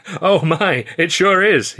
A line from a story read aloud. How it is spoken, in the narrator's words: he laughed, tears springing from his eyes